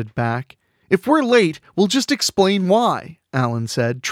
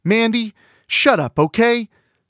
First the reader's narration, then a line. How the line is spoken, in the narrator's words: Seth shouted